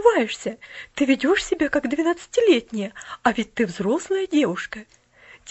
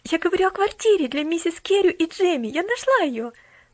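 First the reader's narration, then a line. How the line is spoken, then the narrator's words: Rapid chatter. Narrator (Russian): тараторила Поляна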